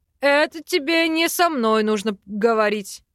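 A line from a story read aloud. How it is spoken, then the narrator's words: Man's scoffing snort. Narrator (Russian): хмыкнул мужчина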